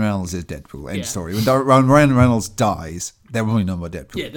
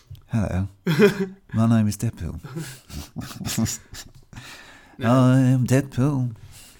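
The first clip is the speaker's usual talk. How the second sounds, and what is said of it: Imitates another person's voice. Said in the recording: “your David Bowie impression”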